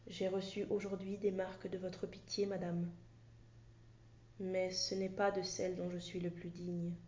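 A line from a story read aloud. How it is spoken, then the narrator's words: Whispered. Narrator (French): Monsieur de Nemours lui dit tout bas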